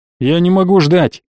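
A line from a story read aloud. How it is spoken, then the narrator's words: Snapping. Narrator (Russian): огрызнулся он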